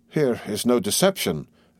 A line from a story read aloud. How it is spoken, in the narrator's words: exclaimed Duncan